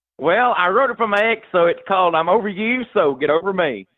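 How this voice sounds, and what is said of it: Slight Southern drawl. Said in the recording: “a bit of a Southern drawl in your voice”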